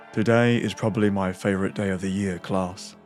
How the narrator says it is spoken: said, in a monotonous voice

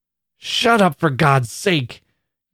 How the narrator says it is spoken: cried Annie fiercely, as if in torture

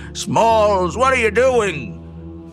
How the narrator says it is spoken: we heard Ham down below shouting

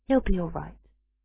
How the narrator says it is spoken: murmured Ginny

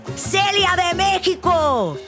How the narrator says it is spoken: another person yelled

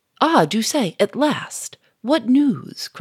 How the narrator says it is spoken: cried Gouchard

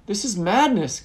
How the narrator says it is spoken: Gamdan cried

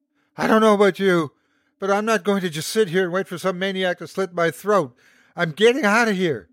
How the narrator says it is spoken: she screamed

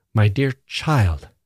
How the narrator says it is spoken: said sharply

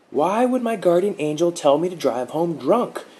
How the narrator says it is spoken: Mark yelled, saliva flinging from his lips

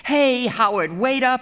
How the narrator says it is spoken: he yelled to Howard White

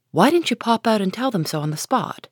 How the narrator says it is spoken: cried Joe indignantly

